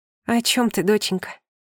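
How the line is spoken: Breathless. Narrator (Russian): выдохнула

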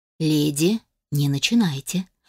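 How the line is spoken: Weary. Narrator (Russian): устало проговорил я

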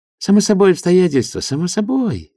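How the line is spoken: Joyful. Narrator (Russian): радостно закивал Филер

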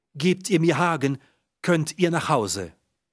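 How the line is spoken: Calling out. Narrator (German): ruft sie

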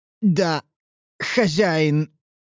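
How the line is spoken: Forced, reluctant words. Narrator (Russian): выдавил он из себя против своей воли

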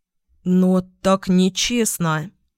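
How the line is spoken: Hesitant. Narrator (Russian): Неуверенно подал голос конопатый Отда, приятель Карпета

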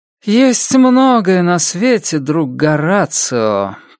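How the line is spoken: Drawl. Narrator (Russian): протянула Роуэн

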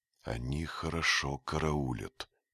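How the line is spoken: Whisper. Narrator (Russian): шепнул Дик

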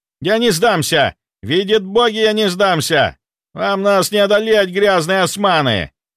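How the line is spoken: Hateful shout. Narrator (Russian): С ненавистью выкрикнул

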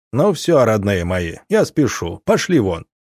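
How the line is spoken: Abrupt. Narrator (Russian): вдруг он резко оборвал речь на полуслове и сказал

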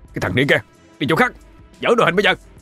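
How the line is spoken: Hunter's gruff shout. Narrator (Vietnamese): Một người thợ săn quát

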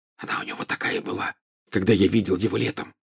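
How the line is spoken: Whispering in ear. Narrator (Russian): зашептал Гарри на ухо Гермионе

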